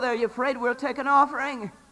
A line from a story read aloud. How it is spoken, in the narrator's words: yelled